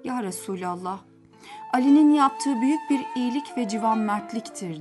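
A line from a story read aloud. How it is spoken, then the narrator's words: Plain. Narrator (Turkish): dedi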